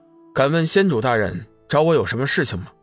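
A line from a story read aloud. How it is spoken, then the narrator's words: Calm, flat. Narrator (Chinese): 龙宇……淡淡的说道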